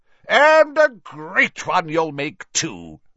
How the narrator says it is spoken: boomed Slughorn

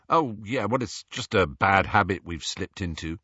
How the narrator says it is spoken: said Harry

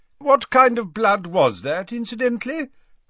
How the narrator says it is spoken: asked Dumbledore loudly, over the chiming of the newly unsmashed grandfather clock

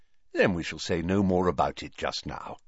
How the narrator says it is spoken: said Dumbledore more kindly

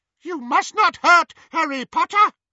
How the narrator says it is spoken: he squeaked

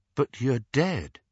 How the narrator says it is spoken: said Harry

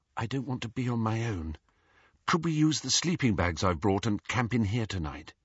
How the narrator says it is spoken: Faintly, he heard Hermione say

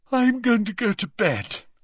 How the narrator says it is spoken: yawned Ginny

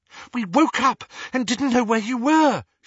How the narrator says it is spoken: she said breathlessly

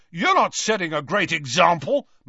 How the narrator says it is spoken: McLagan shouted back, red-faced and furious

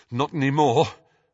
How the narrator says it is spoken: panted Harry

